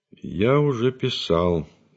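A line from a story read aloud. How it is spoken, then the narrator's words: Dry reply. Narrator (Russian): сухо ответил Лопахин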